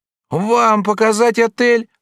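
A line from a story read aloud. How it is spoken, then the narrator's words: Crying out. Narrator (Russian): вскрикнула Клодина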